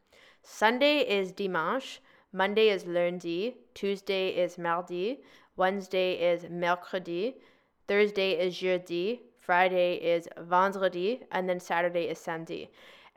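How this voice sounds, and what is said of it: French words in an English accent. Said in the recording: “give me grace for my English accent”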